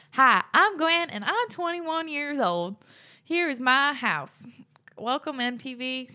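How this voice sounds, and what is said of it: Put-on American country accent. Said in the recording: “I don't know why I want to read that in a country accent.”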